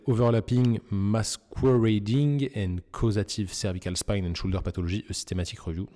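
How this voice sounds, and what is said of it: French accent speaking English. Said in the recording (French): “désolé pour mon accent”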